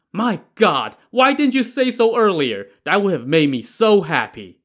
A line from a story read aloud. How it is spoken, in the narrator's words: Li Kui exclaimed